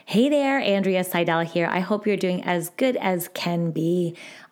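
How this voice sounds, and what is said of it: Hoarse, failing voice. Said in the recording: “I am losing my voice as we're speaking. Oh my goodness, I don't know where it went just for that second.”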